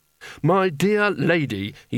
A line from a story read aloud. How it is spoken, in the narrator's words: he said desperately